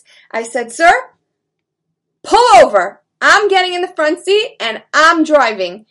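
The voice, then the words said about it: Firm, commanding voice. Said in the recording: “I had to put on my strong big girl voice.”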